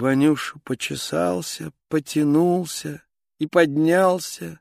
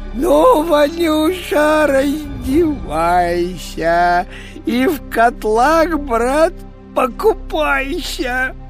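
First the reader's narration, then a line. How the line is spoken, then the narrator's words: Shouting. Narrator (Russian): Царь Ивану закричал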